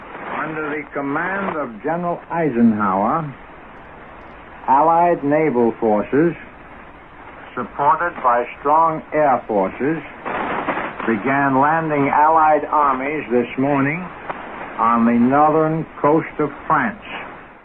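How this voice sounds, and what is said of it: Old-school radio announcer accent. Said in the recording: “I love his old school accent. You don't hear that much on the radio anymore.”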